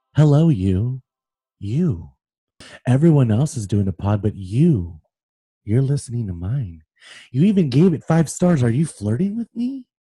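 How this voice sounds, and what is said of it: Imitates a fictional stalker's voice. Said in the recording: “That was like very spot on. ... my stalker Joe Goldberg impersonation.”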